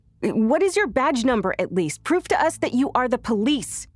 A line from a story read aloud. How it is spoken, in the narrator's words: screamed, trying to keep my voice from breaking